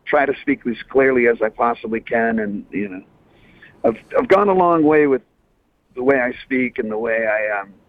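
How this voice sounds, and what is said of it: Thick Boston accent. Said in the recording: “my thick Boston accent ... a Bostonian accent”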